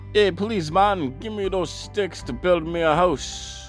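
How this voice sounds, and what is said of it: Put-on Jamaican accent. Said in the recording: “a talking pig with a Jamaican accent. This accent is unbelievable.”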